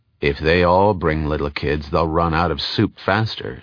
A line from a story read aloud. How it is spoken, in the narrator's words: said Ashiel coldly